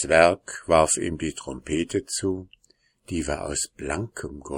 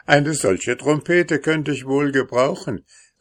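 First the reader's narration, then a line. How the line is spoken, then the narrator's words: Laughing soldier calling out. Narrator (German): rief lachend der Soldat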